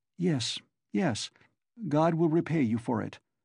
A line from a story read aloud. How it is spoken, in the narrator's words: faltered Sonya